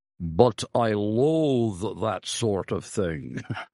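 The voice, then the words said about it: Impression of Dr. Ferguson. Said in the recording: “That's a good impression.”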